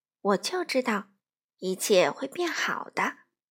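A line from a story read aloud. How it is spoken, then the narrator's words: Soft. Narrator (Chinese): 克拉菲小姐 轻声说道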